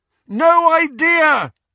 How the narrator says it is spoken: Harry bellowed back

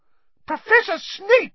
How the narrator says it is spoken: shrieked Madame Pomfrey

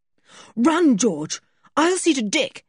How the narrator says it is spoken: yelled Julian

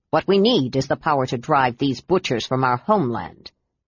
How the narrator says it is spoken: Derek replied harshly

